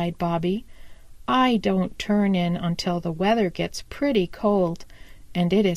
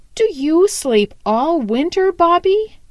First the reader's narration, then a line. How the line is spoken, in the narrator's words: he asked eagerly